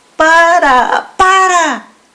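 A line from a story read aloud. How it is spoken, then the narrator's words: Shouting. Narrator (Spanish): gritaban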